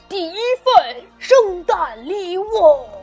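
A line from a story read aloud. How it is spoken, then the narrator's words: Loud. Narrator (Chinese): 圣诞老人大声说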